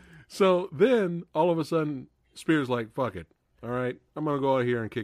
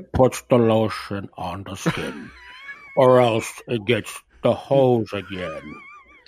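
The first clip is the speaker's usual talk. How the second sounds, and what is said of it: Buffalo Bill impression. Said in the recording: “you like my authentic Buffalo Bill accent?”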